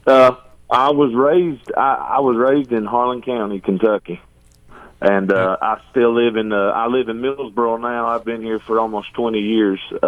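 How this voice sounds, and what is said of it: Country twang accent. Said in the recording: “you've got that country voice. ... Twang. ... That twang is there.”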